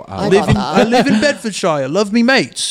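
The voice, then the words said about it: Put-on British accent, slightly Boston. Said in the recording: “a British accent ... It started out a little Boston, but he recovered ... I wasn't giving it the full effort”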